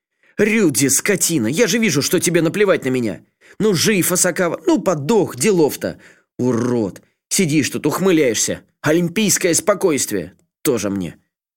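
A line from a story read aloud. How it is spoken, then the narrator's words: Hysterical yelling. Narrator (Russian): Не сдержавшись, заорал Асакава, хотя понимал, что нет ничего отвратительней взрослого мужчины, устраивающего истерику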